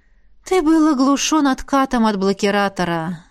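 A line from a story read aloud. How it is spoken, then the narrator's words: Sighing. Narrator (Russian): вздохнула наставница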